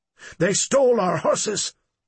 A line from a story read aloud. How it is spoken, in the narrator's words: Cripple Horse exclaimed